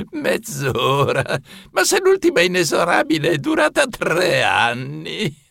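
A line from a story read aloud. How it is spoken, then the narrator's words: Laughing. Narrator (Italian): Rise Sotterra Sorci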